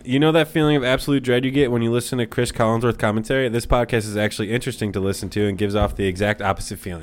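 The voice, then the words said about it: Smooth, appealing radio-style voice. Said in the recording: “sexy radio voice ... you do have a sexy voice ... You do have a really good voice”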